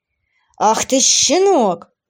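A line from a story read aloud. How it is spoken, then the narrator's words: Growling. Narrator (Russian): зарычал Велор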